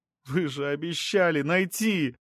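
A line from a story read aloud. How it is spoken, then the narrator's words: Sobbing. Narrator (Russian): Она, всхлипывая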